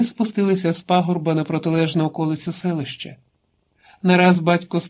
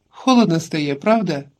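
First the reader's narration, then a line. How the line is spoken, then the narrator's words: Woman speaking. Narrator (Ukrainian): жінка мовила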